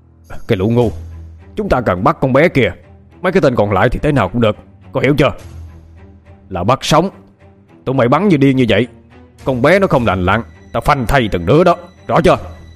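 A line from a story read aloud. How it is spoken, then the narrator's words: Shouting. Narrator (Vietnamese): Hắn quát lên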